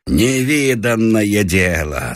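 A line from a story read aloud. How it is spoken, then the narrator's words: Laughing. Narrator (Russian): смеялся Бабушкин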